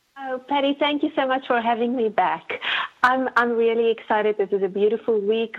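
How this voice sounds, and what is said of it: Non-American accent. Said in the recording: “the real reason that we have you on the show is just so I can listen to your accent ... Can I put on a fake American accent ... I love listening to your accent”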